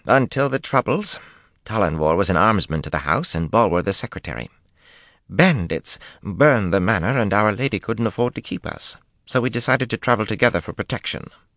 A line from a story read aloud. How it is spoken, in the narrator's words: Linny put in impatiently